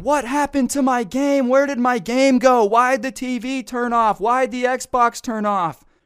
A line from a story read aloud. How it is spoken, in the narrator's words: this guy downstairs starts freaking out, screaming